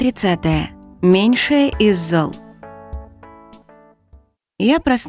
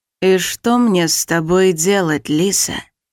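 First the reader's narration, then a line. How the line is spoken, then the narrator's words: Quiet hoarse voice. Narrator (Russian): Голос тихий и хриплый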